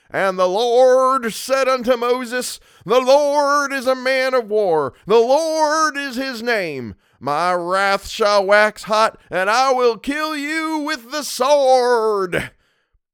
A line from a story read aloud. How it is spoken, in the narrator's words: I believe the minister was a good man, but when he bellowed